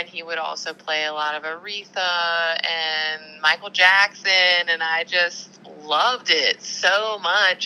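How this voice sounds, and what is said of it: Southern American accent. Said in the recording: “I was raised in the South, if you can't already tell by my accent”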